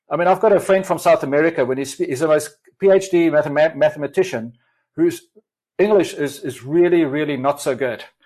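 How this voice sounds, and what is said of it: Mixed South African-tinged accent. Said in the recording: “my accent. I've got a kind of a convoluted kind of South African come whatever other accent.”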